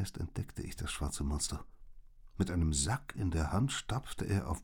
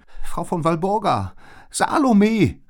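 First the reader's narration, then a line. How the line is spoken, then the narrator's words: Calling out. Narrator (German): rief Liz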